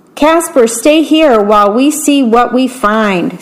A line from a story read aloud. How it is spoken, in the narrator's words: said Zach